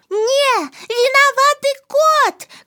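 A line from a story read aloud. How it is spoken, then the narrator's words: Girl shouting. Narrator (Belarusian): крыкнула дзяўчынка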